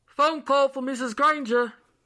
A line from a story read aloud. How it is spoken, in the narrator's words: the landlord shouted